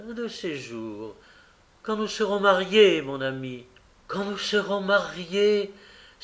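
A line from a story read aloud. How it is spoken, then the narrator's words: Exclaimed. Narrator (French): s'écria M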